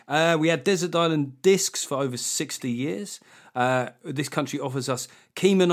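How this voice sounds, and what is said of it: Usual voice. Nothing is said of it.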